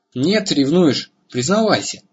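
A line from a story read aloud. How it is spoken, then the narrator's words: Laughing. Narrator (Russian): Он засмеялся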